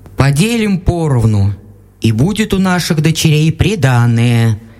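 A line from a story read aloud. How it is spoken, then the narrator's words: Plain. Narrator (Russian): сказал отец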